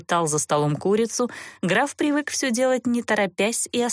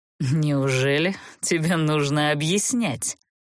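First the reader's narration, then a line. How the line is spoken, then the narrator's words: Mocking. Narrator (Russian): Насмешливо скривил он губы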